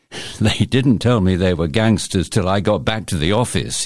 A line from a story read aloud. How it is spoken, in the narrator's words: chuckles